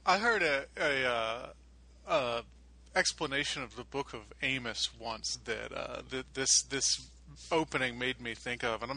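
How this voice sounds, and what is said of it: Stuttering, halting speech. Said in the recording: “sorry I'm stuttering so much. It is very early here.”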